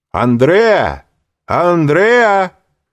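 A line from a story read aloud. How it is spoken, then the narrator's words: Several young men shouting. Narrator (Russian): крикнуло несколько молодых людей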